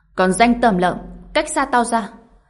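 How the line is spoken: Angry shout. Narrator (Vietnamese): cô ta quát tháo

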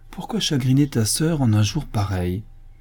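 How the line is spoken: Said gently. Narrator (French): dit doucement Odile

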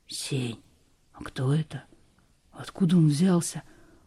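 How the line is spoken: Whisper. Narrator (Russian): прошептал Лёшка

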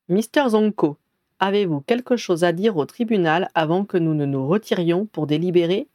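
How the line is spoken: Plain. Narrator (French): demanda le juge-mage

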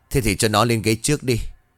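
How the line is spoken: Sigh. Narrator (Vietnamese): Long liền thở dài

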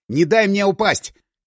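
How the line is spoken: Shouted. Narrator (Russian): крикнул я

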